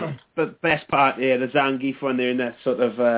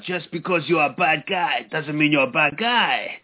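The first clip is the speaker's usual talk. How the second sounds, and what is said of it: Zangief impression. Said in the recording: “Was that a good Zangief impression? ... It was pretty good. ... Very good.”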